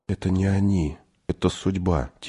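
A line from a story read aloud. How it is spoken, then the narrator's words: Quiet boy's voice. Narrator (Russian): тихо сказал мальчик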